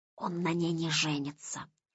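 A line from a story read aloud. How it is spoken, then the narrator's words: Heated whisper. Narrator (Russian): жарко зашептал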